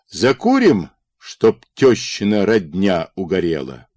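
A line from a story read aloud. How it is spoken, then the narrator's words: Deep bass voice. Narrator (Russian): Карпо пробасил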